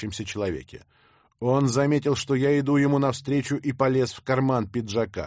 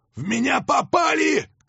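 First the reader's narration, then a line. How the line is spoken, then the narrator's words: Shout. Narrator (Russian): крикнул он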